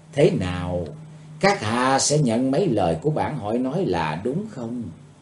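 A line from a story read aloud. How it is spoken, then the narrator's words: Eerie soft voice. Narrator (Vietnamese): bằng một giọng ma quái, cô ả khẽ thốt lên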